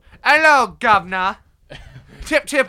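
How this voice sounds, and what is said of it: Put-on English accent. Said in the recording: “I expect us all to be speaking an English accent the entire time”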